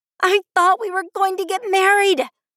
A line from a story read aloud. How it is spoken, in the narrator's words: I screamed into the night sky